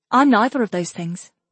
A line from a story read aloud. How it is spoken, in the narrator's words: Catalin said happily